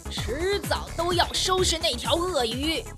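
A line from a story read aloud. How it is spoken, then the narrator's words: Furious roar. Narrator (Chinese): 他愤怒地大声地吼道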